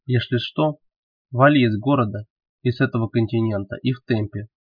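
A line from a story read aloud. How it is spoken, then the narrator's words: Quiet speech. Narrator (Russian): Велес тихо сказал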